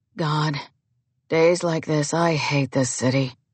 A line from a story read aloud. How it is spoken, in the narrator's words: In a low voice, Blair says